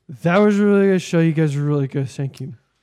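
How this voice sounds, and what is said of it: Impression of a drunk friend. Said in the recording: “Brian was wasted ... That was such a good impression.”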